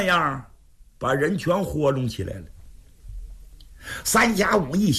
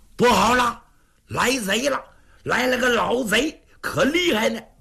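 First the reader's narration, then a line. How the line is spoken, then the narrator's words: Shouting. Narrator (Chinese): 他们俩撒丫子跑回公馆，就喊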